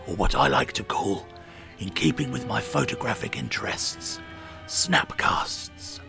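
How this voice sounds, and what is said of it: Usual voice. Nothing is said of it.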